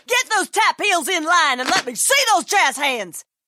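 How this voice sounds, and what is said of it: Drill instructor barking voice. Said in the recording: “my impression of a drill instructor directing a musical.”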